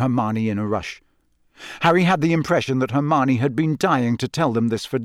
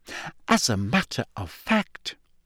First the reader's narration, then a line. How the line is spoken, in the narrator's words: she added, her voice now trembling slightly